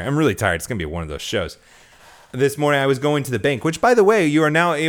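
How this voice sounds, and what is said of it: Usual voice. Nothing is said of it.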